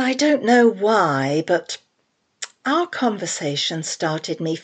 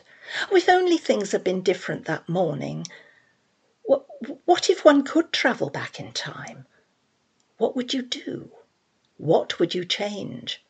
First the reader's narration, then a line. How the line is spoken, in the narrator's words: Audrey sighed